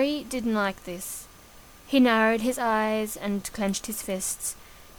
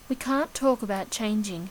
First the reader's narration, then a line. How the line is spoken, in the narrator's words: his mother said softly